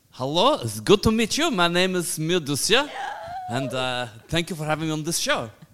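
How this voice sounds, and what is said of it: Character voice with unusual accent. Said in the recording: “my accent is very, very unusual”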